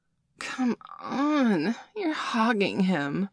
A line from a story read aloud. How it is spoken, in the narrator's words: whined